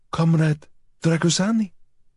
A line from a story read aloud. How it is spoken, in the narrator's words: Batu's voice was hushed, little more than a dry, croaking whisper